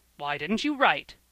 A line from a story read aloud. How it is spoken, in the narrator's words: asked the old gentleman, testily